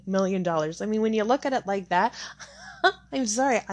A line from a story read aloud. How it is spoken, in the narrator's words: I laugh